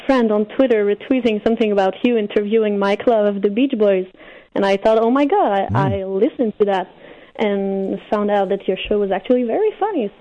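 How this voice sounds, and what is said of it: French-Canadian accent. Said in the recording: “I'm French-Canadian ... I love the accent.”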